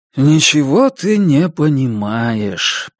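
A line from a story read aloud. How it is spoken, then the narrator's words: Sad. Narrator (Russian): печально сказал Илюшин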